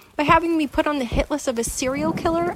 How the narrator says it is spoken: I exclaimed, realizing a second too late that I was close to hysterics

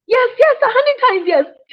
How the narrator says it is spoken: shouted Skunk

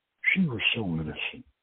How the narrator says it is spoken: she murmured

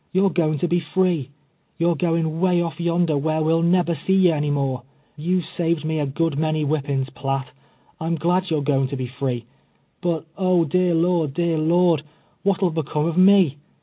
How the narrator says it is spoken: she cried, tears streaming down her face

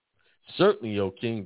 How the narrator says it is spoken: they replied

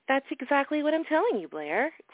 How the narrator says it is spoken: Grandmother smiled sweetly, maintaining her southern charm and poise

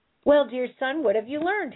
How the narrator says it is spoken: said

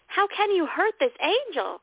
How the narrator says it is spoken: He screamed at my attacker

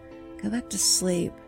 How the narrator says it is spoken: I muttered

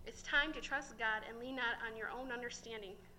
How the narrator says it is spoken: Sam replied

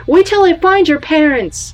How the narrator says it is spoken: I started to yell

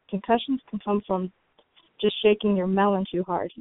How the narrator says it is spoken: he said

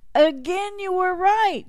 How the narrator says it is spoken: the townsfolk cried out

